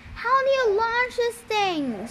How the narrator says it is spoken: screamed Annabeth

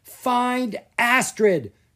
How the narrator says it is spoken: Gianna yelled

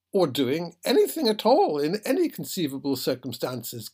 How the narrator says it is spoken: cried the captain

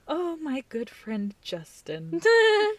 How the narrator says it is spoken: sigh and say

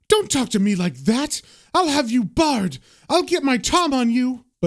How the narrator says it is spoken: she yells back

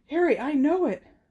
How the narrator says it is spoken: Someone panted from behind him

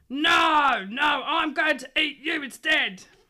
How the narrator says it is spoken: the troll roared

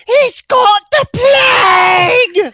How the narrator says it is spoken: screams

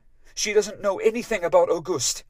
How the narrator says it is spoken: I said fiercely

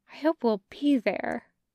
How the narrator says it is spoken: Taki will whisper

